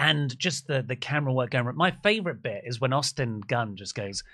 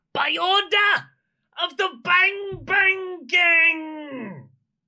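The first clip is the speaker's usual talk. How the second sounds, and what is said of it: Imitates another person's voice. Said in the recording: “good of an impression ... That's so good.”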